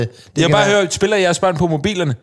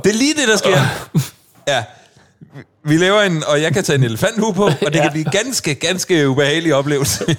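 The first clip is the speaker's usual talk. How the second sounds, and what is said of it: Spot-on put-on Swedish accent. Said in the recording (Danish): “din svenske accent, den er spot on.”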